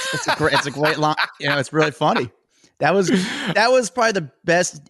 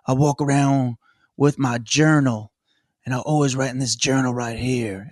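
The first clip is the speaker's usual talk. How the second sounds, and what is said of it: Imitates another person's Elvis-like voice. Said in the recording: “he speaks like Elvis”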